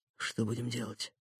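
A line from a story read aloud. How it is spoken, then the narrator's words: Whisper. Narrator (Russian): прошептал Никита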